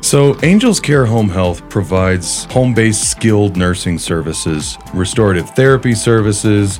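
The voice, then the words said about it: Radio voice. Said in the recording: “You have a radio voice.”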